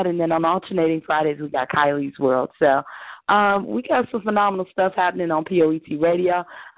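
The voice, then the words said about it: Hoarse, raspy voice. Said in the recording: “y'all been hearing my little hoarse raspiness”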